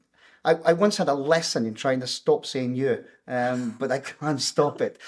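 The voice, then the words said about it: Welsh accent. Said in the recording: “She never, ever tried to lose her accent. I tried desperately... And I failed... when you're Welsh, the word year”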